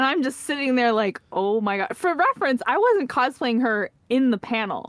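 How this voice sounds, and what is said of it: Usual voice. Nothing is said of it.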